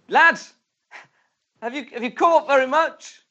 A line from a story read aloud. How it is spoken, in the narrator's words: He shouts to them